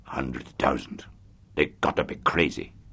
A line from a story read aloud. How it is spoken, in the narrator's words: muttered